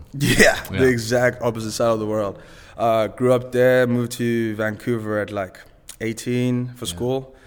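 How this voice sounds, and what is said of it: Zimbabwean accent. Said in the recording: “What's that accent? ... So my accent is Zimbabwean.”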